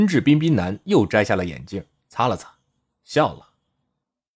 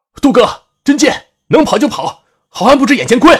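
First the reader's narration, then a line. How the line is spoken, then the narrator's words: Loud urgent shout. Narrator (Chinese): 连城知道寡不敌众，大喊一声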